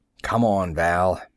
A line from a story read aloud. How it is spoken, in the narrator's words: I said savagely